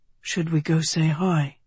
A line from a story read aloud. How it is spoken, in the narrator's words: Tedros whispered